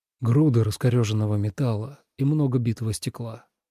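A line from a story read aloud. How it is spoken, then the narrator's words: Quiet speech. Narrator (Russian): произнес он тихо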